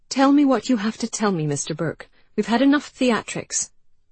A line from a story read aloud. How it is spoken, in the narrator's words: Tightly, Janey said